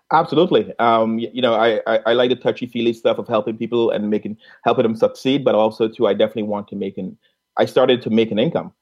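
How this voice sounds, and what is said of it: Caribbean accent. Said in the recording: “we both have a Caribbean accent”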